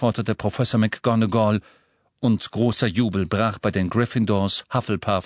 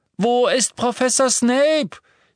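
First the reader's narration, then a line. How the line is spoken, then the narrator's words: Girl shouting. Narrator (German): schrie ein Mädchen vom Slytherin-Tisch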